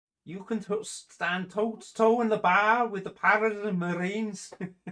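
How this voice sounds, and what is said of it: Put-on Scouse accent. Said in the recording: “it's a Scouse accent, isn't it?”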